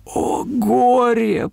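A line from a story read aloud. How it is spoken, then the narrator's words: Sobbing lament. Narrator (Russian): произнес бедный Нигель и всхлипнул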